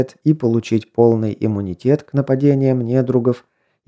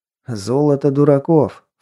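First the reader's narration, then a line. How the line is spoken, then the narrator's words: Scornful snort. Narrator (Russian): фыркнул Берс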